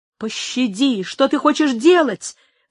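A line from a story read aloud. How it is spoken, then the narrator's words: Desperate scream. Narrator (Russian): в отчаянии закричал Альмендра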